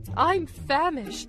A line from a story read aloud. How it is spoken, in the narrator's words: cried Maxie